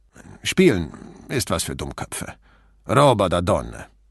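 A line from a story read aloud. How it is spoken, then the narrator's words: Indifferent grumble. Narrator (German): Achselzuckend brummte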